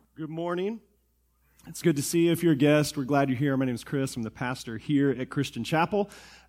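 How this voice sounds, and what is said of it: Rough, unwell-sounding voice. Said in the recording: “Sorry about my voice, ... if I sound like this ... This time is just sickness.”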